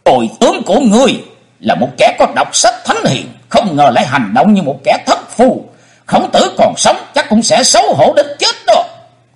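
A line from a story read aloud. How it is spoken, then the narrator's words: Angry shout. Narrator (Vietnamese): nổi nóng quát lên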